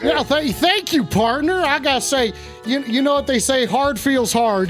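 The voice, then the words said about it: Put-on cowboy accent, poorly done. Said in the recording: “this accent sucks ... this accent sucks”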